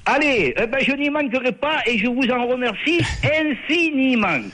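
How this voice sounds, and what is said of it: Southern French accent. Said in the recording (French): “Ton accent ... l'accent du sud”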